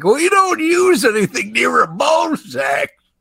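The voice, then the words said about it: Impression of two other hosts. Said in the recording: “That was a really good impersonation of both of us.”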